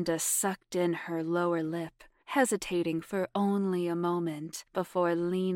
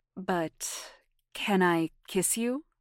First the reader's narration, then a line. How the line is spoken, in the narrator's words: Jamie stammered